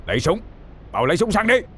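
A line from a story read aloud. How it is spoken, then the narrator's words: Through gritted teeth, shouting. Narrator (Vietnamese): Ông Sùng nghiến răng, mặt tái mét, hét lớn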